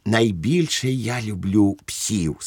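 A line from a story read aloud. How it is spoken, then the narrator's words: Plain. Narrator (Ukrainian): сказав Швейк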